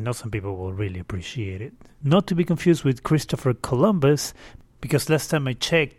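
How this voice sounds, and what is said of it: Usual voice. Nothing is said of it.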